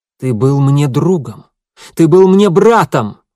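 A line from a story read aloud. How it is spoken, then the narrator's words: Exclaimed. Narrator (Russian): воскликнул он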